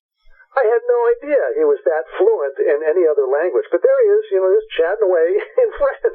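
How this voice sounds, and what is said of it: Great radio DJ voice. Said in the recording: “You got a great radio voice ... I could tell who's got a good voice. You got a great voice. You'd be a great top 40 guy”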